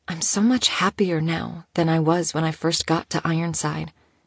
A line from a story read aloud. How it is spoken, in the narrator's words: she whispered